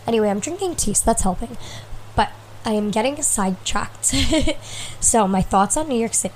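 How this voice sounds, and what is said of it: Sick, congested voice. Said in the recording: “So I do sound ill again. I hear that in my voice. I probably need to clear my nose again.”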